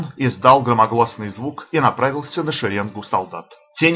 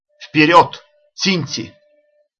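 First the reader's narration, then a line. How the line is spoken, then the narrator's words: Warlike shout. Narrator (Russian): Ашока воинственно крикнул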